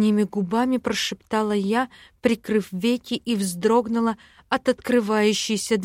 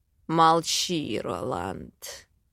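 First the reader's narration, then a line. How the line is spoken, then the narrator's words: Growled. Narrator (Russian): Рыкнул на него Дэймон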